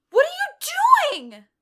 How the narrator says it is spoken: She yelled on accident

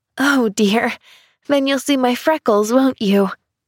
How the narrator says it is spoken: She sighed

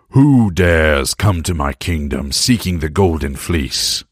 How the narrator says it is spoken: King Aetes thundered

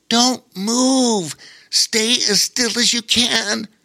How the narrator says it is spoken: said Bobo Chico hoarsely

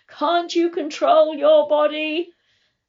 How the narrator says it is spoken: my teacher screamed

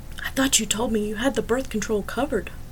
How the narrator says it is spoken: whispered to Elliot

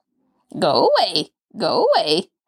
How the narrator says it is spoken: the parrot cackled

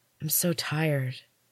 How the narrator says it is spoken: whispered

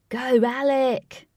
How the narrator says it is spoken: cried Lynx, and he cackled and laughed

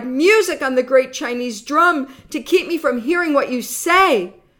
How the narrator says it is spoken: he cried

